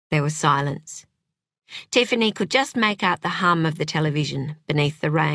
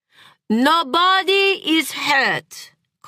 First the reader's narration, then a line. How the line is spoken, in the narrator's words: called out Vid